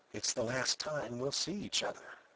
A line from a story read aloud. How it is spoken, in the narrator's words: he whispered